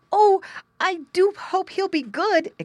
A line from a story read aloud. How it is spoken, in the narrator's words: exclaimed the boy